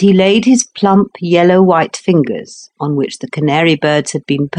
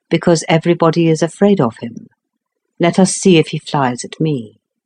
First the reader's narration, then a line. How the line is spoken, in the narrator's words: replied the Count quietly